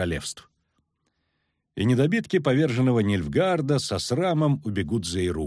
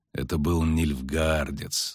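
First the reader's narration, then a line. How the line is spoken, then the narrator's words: Through gritted teeth. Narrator (Russian): сквозь зубы процедил Геральт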